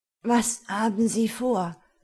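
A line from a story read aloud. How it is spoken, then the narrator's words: Breathless question. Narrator (German): fragte atemlos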